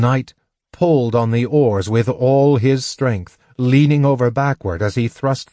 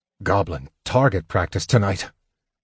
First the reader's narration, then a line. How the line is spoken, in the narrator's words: Caramon muttered